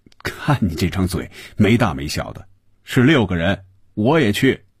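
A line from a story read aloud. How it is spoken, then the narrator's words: Laughing, teasing. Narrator (Chinese): 红军笑着说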